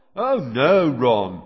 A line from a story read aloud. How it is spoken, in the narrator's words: came Fred's voice, very sarcastically